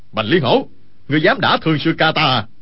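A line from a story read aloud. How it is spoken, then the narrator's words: Loud confused shout. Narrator (Vietnamese): còn chưa hiểu ý y, quát lớn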